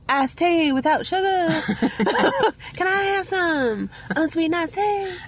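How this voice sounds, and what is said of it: Bad put-on Southern Georgia accent. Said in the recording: “It's a bad accent right now. ... I've not done it for a while. ... your Georgia peach accent”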